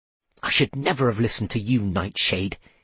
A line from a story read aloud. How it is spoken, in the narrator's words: he muttered